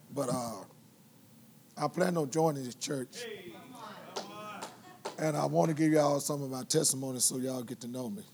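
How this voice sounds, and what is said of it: Hoarse, strained voice. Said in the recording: “Y'all might not be able to understand me too good because I'm hoarse.”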